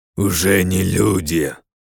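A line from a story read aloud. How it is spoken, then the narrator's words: Mutant growling. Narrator (Russian): рыкнул мутант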